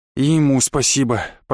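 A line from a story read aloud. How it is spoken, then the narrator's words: Muttered. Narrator (Russian): пробормотал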